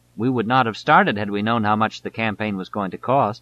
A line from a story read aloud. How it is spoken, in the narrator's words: Shelton says